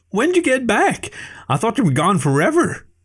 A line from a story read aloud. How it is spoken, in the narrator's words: Stu exclaimed, his high-pitched voice growing in pitch along with his excitement that I'd returned